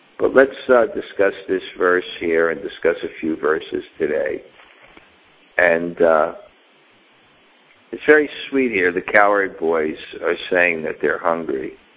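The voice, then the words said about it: Slightly hoarse voice. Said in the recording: “my voice is maybe a little hoarse.”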